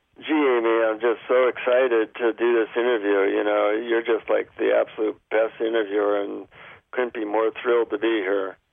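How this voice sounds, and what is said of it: Sarcastic, dull tone. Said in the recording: “my tone of voice is kind of like sarcastic and dull”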